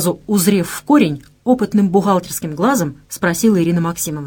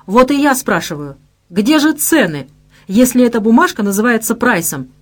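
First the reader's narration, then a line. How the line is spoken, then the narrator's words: Triumphant exclamation. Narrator (Russian): Празднуя победу над поверженной маечкой, воскликнул Герман Михайлович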